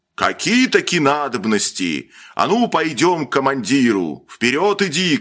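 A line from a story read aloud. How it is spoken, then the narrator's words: Shout. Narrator (Russian): крикнул один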